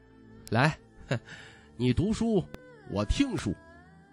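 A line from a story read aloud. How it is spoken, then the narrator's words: Calm smiling. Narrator (Chinese): 徐凤年 已是云淡风轻 微笑道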